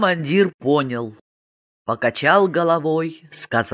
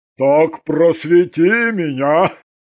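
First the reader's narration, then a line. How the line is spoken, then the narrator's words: Skeptical snort. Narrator (Russian): недоверчиво хмыкнул полковник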